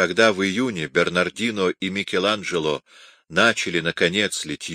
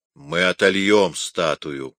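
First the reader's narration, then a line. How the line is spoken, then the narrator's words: Gloomy reply. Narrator (Russian): мрачно отвечал Микеланджело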